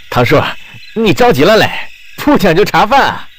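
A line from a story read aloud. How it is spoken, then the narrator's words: Teasing. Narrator (Chinese): 吴子山……取笑道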